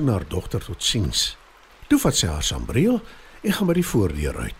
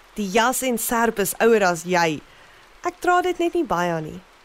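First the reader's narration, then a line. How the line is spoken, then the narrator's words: Laughing. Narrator (Afrikaans): Mamma lag en antwoord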